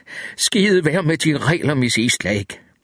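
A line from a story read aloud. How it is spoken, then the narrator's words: Finally exclaiming. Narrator (Danish): Langt om længe udbrød han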